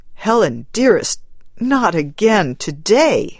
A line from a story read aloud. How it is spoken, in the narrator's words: he begged